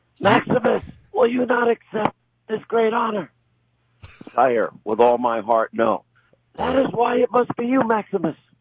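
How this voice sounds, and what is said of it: Imitates movie characters' voices. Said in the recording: “That's my best imitation.”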